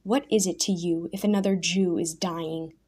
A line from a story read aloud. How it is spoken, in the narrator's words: snarled